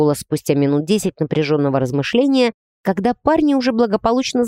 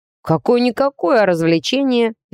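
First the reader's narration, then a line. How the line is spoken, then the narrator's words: Cheerful snort. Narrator (Russian): весело хмыкнул Алекс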